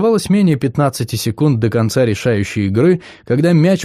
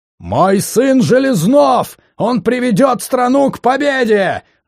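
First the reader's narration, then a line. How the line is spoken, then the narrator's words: Shouted. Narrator (Russian): закричал Сергей Иванович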